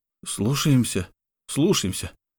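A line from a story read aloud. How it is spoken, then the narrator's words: Guards exhaling in unison. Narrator (Russian): хором выдохнули стражники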